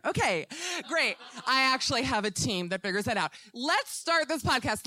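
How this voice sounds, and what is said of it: Screaming, loud excited speech. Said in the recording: “I'm going to stop screaming in a minute”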